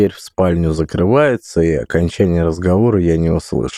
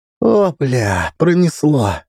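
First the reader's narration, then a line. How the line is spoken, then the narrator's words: Relieved exhale. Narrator (Russian): выдохнул Пыжик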